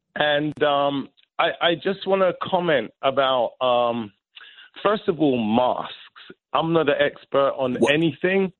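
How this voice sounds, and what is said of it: Noticeable accent. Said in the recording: “because of your accent”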